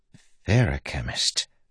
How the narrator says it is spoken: Wayne said softly

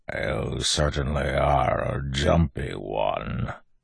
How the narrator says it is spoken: the voice growled

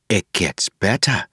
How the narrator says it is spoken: she said softly

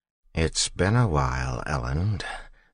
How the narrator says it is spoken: Jastis said, chuckling weakly

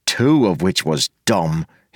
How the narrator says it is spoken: he said sullenly

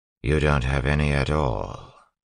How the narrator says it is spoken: he said flatly

